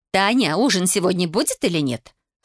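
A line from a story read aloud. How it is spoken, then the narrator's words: Irritated shouting. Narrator (Russian): раздраженно крикнула Наира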